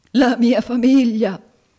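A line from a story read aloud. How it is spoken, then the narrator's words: Sobbing. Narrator (Italian): singhiozzò il signor Squeers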